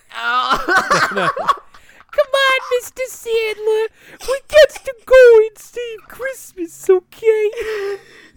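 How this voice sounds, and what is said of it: Whitey character voice from Eight Crazy Nights. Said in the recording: “can you do the Whitey voice real quick for me?”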